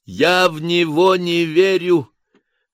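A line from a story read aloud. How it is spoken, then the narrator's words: Laughing. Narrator (Russian): засмеялся Толя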